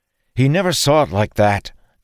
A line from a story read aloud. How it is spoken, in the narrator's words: Dalen snapped